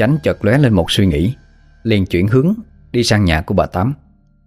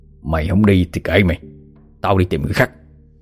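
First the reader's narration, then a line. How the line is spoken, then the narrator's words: Old man muttering. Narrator (Vietnamese): Ông Chánh gương mặt khăm he, miệng thì lẩm bẩm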